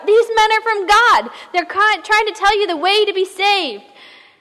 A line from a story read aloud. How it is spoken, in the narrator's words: she screams out